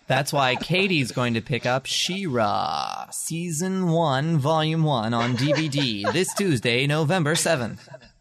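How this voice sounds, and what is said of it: Announcer-style radio voice. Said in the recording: “That was my radio voice. ... That's a very impressive voice”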